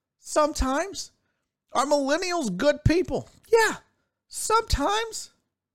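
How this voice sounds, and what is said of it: Voice rises unusually high, unconvincing. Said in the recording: “my voice went up that high when I said it. It's almost like I didn't believe it myself”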